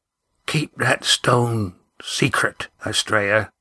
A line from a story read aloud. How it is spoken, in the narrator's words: whispered Skarm from across the narrow cabin